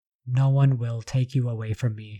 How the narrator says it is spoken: murmured

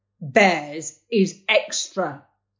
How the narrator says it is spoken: he growled

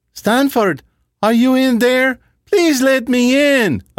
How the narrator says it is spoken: a female voice called out

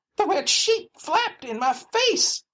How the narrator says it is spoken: she cried

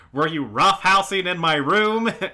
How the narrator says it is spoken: she yells out asking

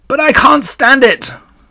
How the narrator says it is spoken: shouted Wilbur

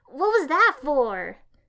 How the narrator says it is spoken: I yelped

